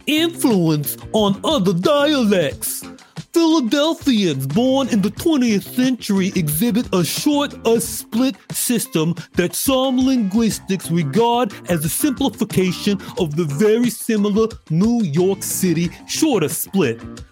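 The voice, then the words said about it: Exaggerated, poor Brooklyn accent. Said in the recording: “I'm going to read this exclusively in a terrible Brooklyn accent”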